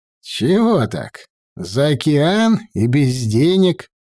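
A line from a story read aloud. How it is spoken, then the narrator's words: Embarrassed drawl. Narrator (Russian): Я смущенно протянул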